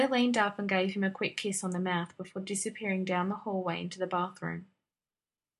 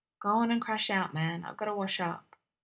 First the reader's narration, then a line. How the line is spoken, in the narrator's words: Blair turned and murmured